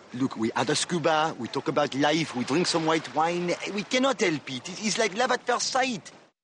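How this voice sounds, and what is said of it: Put-on French accent. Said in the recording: “played with French accent by Hank Azaria”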